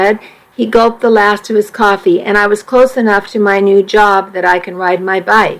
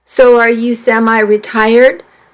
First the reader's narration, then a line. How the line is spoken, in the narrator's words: Doug laughed